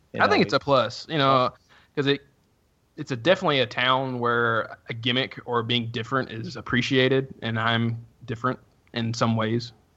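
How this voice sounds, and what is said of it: Southern American accent. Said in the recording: “going back to your accent ... some people consider Southern accents sexy. Some think they sound ignorant”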